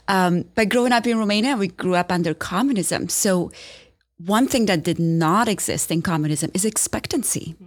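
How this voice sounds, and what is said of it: Romanian accent. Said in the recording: “I grew up in Romania, so nobody should be surprised by this accent”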